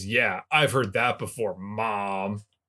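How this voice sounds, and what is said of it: Good impression of Chuck. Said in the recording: “That was a good Chuck impression.”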